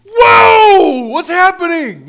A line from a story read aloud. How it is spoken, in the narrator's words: She yells out